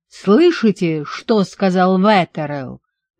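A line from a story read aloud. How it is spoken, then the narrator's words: Roaring. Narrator (Russian): взревел Гарри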